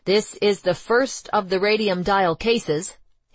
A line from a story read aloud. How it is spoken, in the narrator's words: he later said